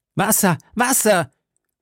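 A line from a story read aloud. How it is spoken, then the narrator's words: Shout. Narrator (German): schrie D'Artagnan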